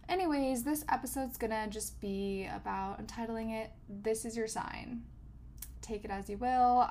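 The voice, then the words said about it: Congested, slightly hoarse voice. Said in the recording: “I'm a little congested today ... I love having a little bit more of a hoarse voice”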